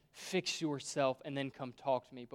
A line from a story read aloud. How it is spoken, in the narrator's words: says